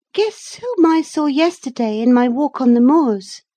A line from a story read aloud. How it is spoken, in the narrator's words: exclaimed